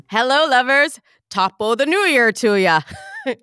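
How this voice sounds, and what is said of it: Bad put-on Irish accent. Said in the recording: “a bad Irish accent.”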